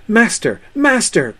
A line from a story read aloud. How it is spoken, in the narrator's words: cried Sam